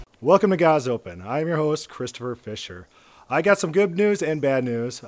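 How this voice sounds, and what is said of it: Hoarse, failing voice. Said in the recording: “you could probably already hear it. My voice is going out. It's dying. Kaput.”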